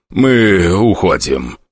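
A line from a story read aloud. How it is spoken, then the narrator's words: Softer. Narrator (Russian): сказал он уже мягче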